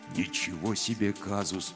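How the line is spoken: Quiet. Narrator (Russian): тихо сказал Гробус

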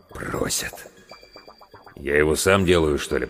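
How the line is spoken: Mutter. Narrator (Russian): пробормотал главврач

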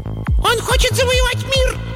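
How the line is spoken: Squeaky creature voice. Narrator (Russian): запищал один из либлей

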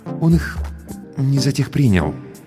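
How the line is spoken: Cautious, almost timid. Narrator (Russian): осторожно, почти робко выговорил Сарториус

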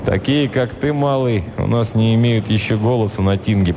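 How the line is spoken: Grumbling Viking. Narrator (Russian): проворчал варяг

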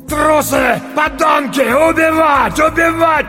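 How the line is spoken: Shouting older stocky man. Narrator (Russian): кричал немолодой, но еще крепкий, коренастый мужчина

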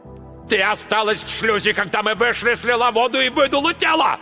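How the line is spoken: Yelling. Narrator (Russian): орал Марк Йоган

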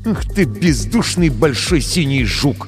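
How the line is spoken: Through gritted teeth. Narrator (Russian): процедил Крисмас сквозь зубы

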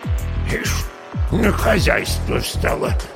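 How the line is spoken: Grumbling old witch. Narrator (Russian): заворчала яга, принюхиваясь

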